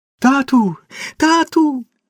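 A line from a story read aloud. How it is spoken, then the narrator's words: Joyful girl. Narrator (Ukrainian): Це дівчина радісно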